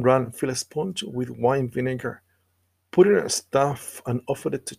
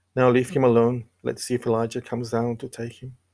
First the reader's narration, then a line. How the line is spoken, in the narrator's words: said, and with a loud cry